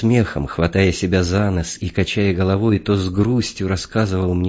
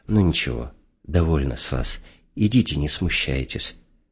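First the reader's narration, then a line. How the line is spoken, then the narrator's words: Affectionate tone. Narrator (Russian): Профессор ласково сказал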